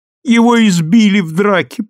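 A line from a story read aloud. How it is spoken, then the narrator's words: Woman's moan. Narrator (Russian): простонала она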